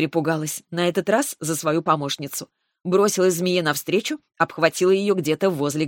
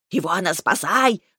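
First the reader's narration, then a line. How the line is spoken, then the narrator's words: Snake's frantic yell. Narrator (Russian): завопила змея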